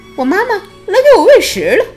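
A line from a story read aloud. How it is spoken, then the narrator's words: Loud high reply. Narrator (Chinese): 小企鹅高声回答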